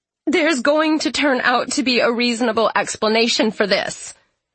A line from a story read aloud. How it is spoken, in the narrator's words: she says now in a high, wavery voice